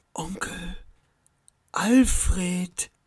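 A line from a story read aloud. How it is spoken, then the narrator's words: Relieved whisper. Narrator (German): flüsterte Max, und eine tiefe Wärme durchströmte seinen Körper vor Erleichterung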